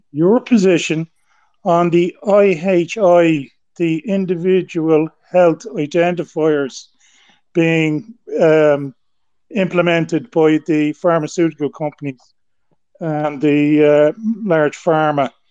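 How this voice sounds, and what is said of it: Noticeable accent, hard to understand. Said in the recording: “the connection and the accent made it a little bit hard”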